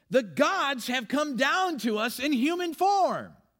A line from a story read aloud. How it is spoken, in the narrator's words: the crowd shouted in the Lyconian language